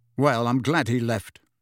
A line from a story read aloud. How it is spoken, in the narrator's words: Harry said coldly